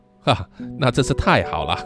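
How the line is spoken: Laughing reply. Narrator (Chinese): 我只能笑着回答说

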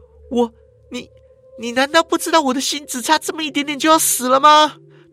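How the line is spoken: Grief-stricken voice. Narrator (Chinese): 他的声音啊，呈现出悲痛

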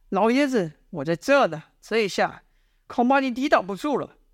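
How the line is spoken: Shouting. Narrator (Chinese): 李密大喊道

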